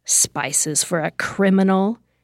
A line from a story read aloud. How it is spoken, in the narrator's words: a man taunted, spitting in disgust